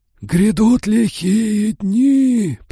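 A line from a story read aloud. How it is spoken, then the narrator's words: Hoarse proclamation. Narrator (Russian): провозгласил он хриплым голосом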